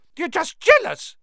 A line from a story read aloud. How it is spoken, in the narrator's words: piped up Colin